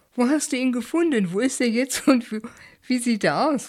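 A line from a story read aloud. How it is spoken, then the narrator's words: Laughing question. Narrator (German): fragte zurück und lachte laut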